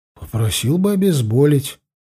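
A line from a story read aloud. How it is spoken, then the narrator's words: Hesitant. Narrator (Russian): неуверенно начал я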